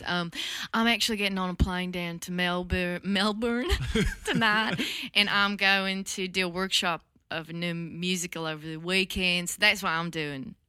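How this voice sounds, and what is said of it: Deliberately bad put-on Southern accent. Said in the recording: “Southern. ... like terrible Southern.”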